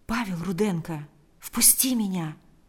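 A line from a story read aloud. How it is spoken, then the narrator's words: Very quiet. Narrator (Russian): ответил Павел очень тихо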